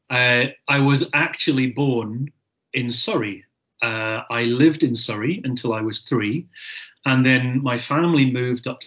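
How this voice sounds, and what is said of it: Scottish accent. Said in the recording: “Scotland, obviously, by my accent.”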